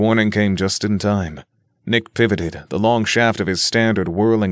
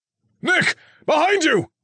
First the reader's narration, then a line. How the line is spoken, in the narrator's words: Alan shouted